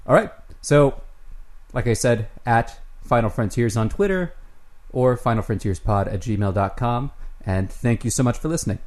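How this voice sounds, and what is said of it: Midwestern American accent. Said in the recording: “my accent ... Midwestern accent.”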